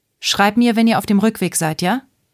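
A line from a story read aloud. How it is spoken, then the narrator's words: Woman calling after someone. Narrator (German): rief die Frau nach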